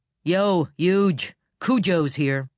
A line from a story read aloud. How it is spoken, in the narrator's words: Tim yell